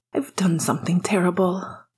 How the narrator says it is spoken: he said when he was close enough to talk more quietly

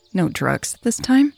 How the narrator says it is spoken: Becker said dryly

